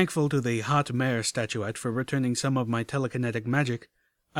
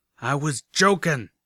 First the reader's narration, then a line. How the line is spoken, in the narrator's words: he hissed